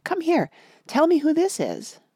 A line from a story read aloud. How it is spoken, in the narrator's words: cried